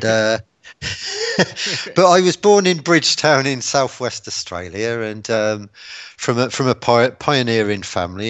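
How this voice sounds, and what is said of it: English (Pommy) accent. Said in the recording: “I'm a seventh generation Australian with a Pommy accent”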